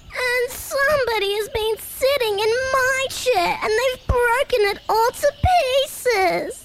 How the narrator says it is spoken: he cried in his squeaky baby voice

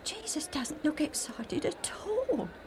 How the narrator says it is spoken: Alf whispered to Joe

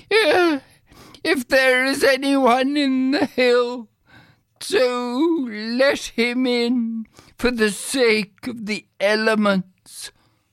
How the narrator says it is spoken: he cried out a third time

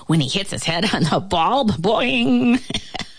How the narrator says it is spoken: The fly began to laugh

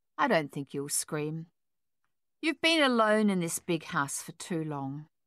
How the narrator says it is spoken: he continued smoothly, calmly

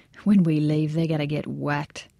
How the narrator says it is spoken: Ramirez smiled while saying under his breath

